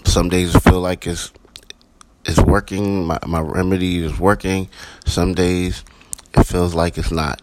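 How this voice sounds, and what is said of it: Hoarse congested voice. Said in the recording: “Excuse my voice. I'm battling a cold”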